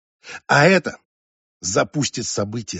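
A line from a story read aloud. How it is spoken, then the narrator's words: Plain. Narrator (Russian): сказала она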